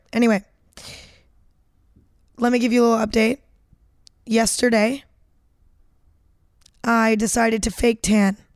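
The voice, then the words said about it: Cracking, strained, partly lost voice. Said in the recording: “I'm having really bad voice cracks today... my voice is just cracking nonstop... My voice is kind of gone... I will be having a lot of voice cracks today... I don't know why my voice is all fucked up”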